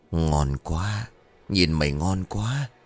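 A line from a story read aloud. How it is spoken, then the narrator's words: Soft, lip-licking man's voice. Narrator (Vietnamese): một gã đàn ông với thân hình quái gở, liếm láp khẽ nói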